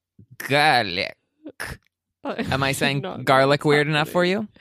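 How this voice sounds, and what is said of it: Weird put-on Eastern European accent. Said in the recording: “I'm practicing my Anne Hathaway garlic accent ... I think you need some work on that for sure ... she had a weird accent ... would you call that like Eastern European”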